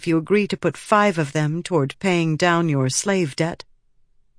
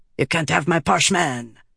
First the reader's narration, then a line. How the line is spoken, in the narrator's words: Tavlakov snapped